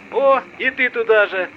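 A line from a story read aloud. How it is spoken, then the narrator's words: Yelled reply. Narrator (Russian): заорал ему в ответ коллега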